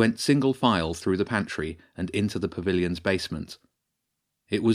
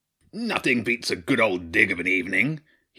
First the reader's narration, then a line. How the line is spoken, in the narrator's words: roared